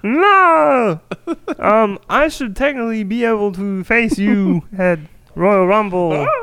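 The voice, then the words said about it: Kermit and Miss Piggy puppet voice. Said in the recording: “Kermit, what are you doing here? ... It was a mixture between Kermit the Frog and Miss Piggy.”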